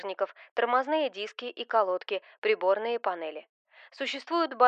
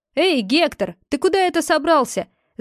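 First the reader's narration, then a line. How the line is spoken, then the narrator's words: Shouted. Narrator (Russian): закричал Хэнк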